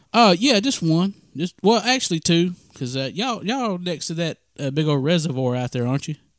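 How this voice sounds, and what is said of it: Noticeable regional American accent. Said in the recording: “I would have never been able to tell by your accent. ... I got an accent?”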